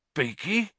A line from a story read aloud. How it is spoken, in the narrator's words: said Hagrid huskily